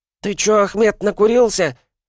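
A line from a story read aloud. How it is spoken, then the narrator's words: Startled squeak. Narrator (Russian): пискнул шарахнувшийся прочь низкорослый кавказец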